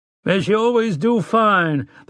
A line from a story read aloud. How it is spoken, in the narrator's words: the rancher cried